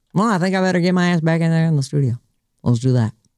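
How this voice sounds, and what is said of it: Put-on country accent. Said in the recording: “That's my country accent”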